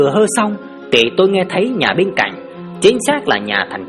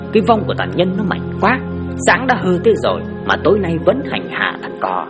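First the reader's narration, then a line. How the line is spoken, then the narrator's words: Muttered. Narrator (Vietnamese): lẩm bẩm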